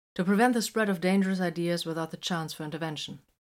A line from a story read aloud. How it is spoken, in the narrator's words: the librarian answered smoothly